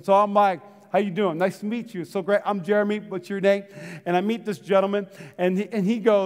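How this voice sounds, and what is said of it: Usual voice. Nothing is said of it.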